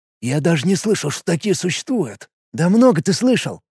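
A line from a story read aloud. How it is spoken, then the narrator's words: Quiet arguing. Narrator (Russian): тихо спорил с ним Чикир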